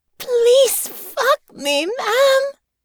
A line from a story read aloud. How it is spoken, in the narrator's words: Honor was almost screaming now